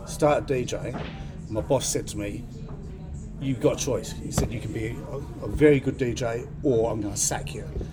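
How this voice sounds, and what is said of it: Australian accent. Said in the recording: “you sounded really Australian ... It's Australian.”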